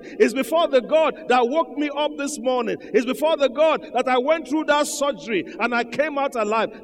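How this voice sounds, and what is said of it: Shouting. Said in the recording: “why I'm shouting”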